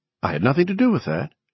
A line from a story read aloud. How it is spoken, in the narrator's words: she said quickly